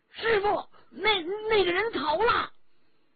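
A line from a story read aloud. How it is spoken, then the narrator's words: Shouting. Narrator (Chinese): 宋天宝大叫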